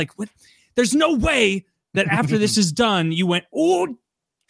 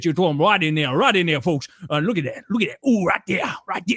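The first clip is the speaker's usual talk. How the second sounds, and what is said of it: Put-on Cajun accent. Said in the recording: “I like that Cajun accent.”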